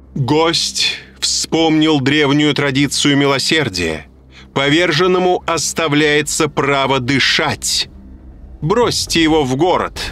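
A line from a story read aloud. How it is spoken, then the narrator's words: Loud proclamation. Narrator (Russian): громко провозгласила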